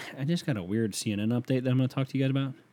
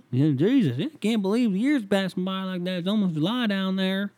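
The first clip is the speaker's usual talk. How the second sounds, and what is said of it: Put-on country accent. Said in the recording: “Why do I have a country accent?”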